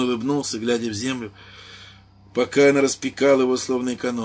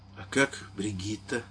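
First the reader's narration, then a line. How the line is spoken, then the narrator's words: Quiet awkward question. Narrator (Russian): спросил он тихо с неловкой улыбкой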